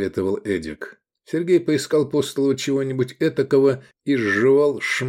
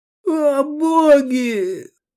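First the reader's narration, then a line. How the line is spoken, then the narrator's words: Hysterical sobbing. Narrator (Russian): Закатывал истерику Виндекс, рыдая и хлюпая носом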